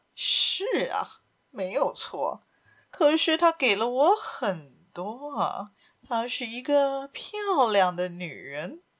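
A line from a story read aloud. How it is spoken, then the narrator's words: Smug, laughing. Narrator (Chinese): 医生颇为得意地笑着说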